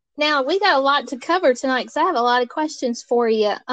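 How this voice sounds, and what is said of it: Southern American accent. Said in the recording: “Southern accent ... it's very comforting to hear your accent.”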